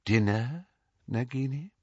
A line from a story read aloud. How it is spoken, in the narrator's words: said Voldemort softly